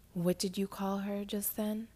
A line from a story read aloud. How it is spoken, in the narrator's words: he asked